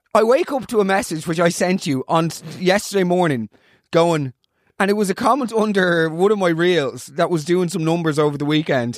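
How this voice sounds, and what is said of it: Hoarse voice. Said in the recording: “my voice is hoarse. ... From the shows.”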